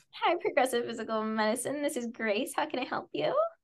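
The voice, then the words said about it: Customer service phone voice. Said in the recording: “the customer service voice down ... Oh my God, you do have it down.”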